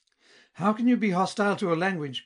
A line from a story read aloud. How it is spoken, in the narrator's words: cried our friend